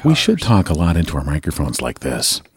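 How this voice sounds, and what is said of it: Close-mic soft radio-host voice. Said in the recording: “I'm really talking close into the microphone. ... This is sort of my NPR voice.”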